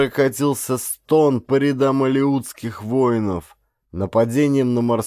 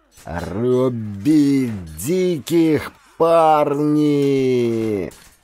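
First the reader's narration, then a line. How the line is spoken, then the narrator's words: Hoarse battle cry. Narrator (Russian): прохрипел капитан Горн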